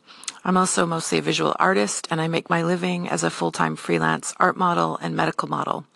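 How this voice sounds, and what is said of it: Dry, slightly rough voice. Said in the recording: “my voice is really dry. I think I need to drink some more coffee and Manuka honey.”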